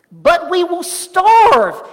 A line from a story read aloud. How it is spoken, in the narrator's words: he exclaimed